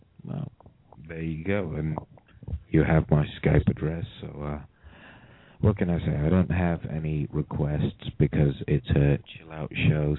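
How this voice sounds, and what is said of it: British accent. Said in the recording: “I love the accent ... My dumb accent ... I'm calling from the UK ... I'm a UK guy”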